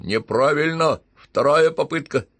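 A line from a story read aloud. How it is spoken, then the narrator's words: Giggling, then scary snap. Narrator (Russian): Шалунья хихикнула и еще более страшно отрезала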